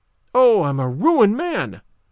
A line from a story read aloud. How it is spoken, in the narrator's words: When the wagoner became aware of it, he cried out again